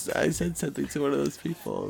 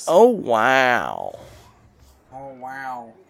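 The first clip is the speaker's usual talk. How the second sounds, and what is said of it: Imitates another person's voice. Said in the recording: “your Owen Wilson Kuchow impression. It's really good. ... That's pretty good.”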